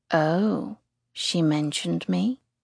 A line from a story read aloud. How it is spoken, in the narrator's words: He asks softly